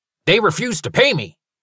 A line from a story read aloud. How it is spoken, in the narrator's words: Merle snapped